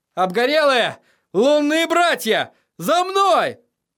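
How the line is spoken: Shouted. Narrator (Russian): Тирион закричал

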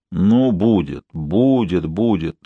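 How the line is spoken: Deep hoarse voice. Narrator (Russian): глубоким хриплым голосом проговорила графиня

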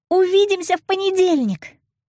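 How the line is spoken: Ringing shout. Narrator (Russian): звонко крикнула вслед

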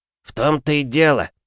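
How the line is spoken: Prince snorting. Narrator (Russian): фыркнул царевич

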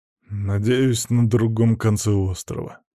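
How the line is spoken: Husband muttering. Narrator (Russian): буркнул муж

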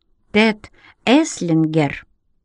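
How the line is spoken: Slow. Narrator (Russian): сказал я медленно

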